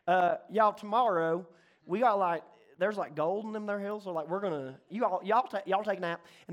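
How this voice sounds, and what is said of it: Put-on Southern accent. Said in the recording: “Southern. I can do Southern.”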